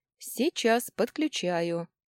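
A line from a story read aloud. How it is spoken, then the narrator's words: Plain. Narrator (Russian): ответил тот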